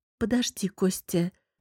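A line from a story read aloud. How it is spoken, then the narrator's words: Embarrassed hesitant plea. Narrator (Russian): попросила я и, смутившись, неуверенно выдавила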